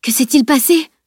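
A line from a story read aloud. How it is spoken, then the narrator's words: Panting. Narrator (French): haleta-t-il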